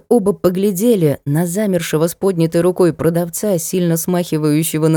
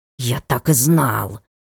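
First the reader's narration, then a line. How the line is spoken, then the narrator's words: Cat's hiss. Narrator (Russian): зашипел котяра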